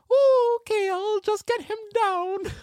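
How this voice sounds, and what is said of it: Mrs. Doubtfire voice impression. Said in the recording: “as Mrs. Doubtfire ... I need to sort that accent”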